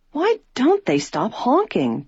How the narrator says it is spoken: George exclaimed impatiently

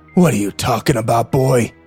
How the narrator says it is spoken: He growled

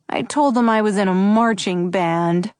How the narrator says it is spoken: Buddy said miserably

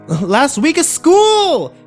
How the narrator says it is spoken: Kimber yelled

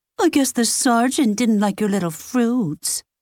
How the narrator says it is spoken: she said in a sickly sweet voice

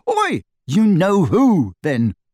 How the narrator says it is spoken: Harry shouted, goaded past endurance

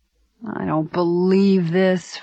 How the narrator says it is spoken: Frank moaned

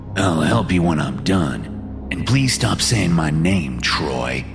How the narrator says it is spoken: Lars says

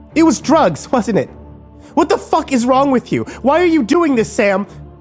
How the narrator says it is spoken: Kimber screamed

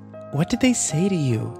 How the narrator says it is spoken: Kimber asked nervously

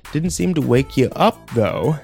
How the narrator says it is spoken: he laughed

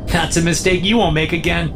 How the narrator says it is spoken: she laughs

